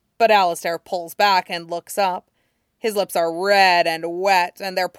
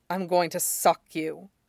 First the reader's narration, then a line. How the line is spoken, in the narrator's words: says in a low voice